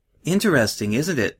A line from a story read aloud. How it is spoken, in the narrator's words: Luna said